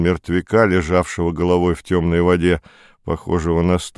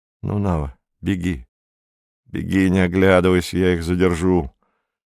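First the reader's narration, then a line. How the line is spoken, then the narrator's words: Quiet voice. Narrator (Russian): Кандид глубоко вздохнул ... и сказал Наве негромко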